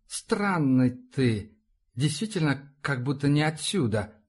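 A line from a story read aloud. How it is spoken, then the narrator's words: Drawl. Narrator (Russian): протянул парень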